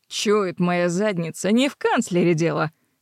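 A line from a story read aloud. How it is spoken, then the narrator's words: Smirking grunt. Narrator (Russian): хмыкнул Фрэнсис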